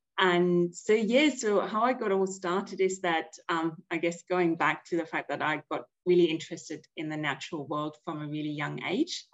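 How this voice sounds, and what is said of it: German accent. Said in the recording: “you might have already picked up from my accent that I'm actually German”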